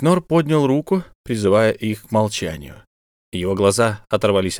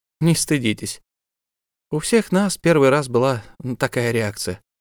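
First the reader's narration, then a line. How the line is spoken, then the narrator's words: Quiet. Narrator (Russian): тихо сказала Анаэна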